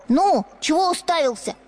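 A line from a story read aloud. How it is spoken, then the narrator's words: Shouting. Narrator (Russian): кричал хозяйский сын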